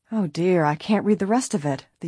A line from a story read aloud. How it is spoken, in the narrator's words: the young detective groaned